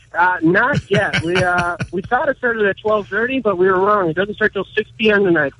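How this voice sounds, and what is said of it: Minnesota accent. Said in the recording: “if you haven't picked up on his accent, he's not from around here. He's actually from Minnesota.”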